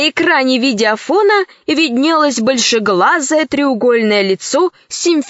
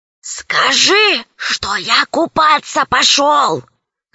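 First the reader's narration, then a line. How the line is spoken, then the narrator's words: Hissing. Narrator (Russian): зашипел Аркаша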